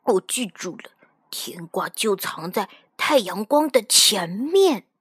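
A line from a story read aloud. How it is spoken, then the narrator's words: Quiet, to himself. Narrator (Chinese): 便小声对自己说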